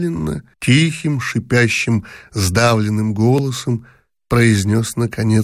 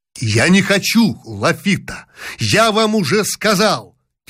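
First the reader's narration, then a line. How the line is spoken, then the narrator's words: Shouting, losing composure. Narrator (Russian): Теряя всякое самообладание, крикнул Рибопьер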